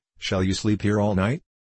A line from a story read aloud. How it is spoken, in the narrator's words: Laughing